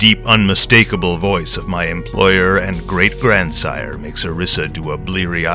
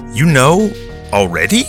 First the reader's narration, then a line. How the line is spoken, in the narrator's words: she stammers